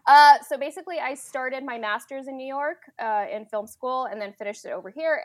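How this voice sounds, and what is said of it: American accent. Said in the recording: “that's how I got my American accent”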